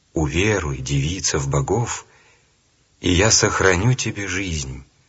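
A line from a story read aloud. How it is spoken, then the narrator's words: Ruler's gentle speech. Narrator (Russian): правитель ласково сказал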